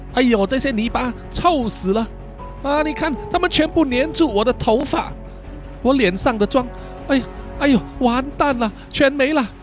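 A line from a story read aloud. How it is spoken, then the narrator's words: Panting. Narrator (Chinese): 嘉文呢，一面喘气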